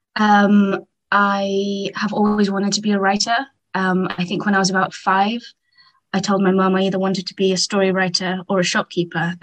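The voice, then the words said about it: English accent. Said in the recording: “I'm English, as you can tell from the accent.”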